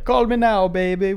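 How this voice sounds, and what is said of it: Bad put-on Jamaican accent. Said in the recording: “My worst Jamaican accent, sorry.”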